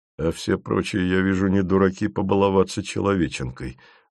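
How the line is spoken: Sighing. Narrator (Russian): вздохнул Фомин

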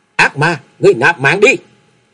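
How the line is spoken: Uncontrolled loud shout. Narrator (Vietnamese): không thể kềm chế nổi bản thân, hét to lên một tiếng nói

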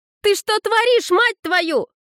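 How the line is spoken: Shouting. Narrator (Russian): закричала Кидан

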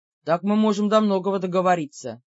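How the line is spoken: Grumbled. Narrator (Russian): проворчал Бер

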